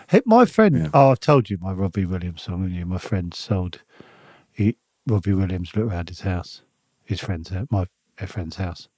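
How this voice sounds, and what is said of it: Whispering. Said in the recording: “Why are you whispering?... Why am I whispering?”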